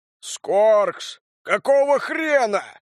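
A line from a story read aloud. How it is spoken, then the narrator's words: Big man roaring. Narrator (Russian): взревел здоровяк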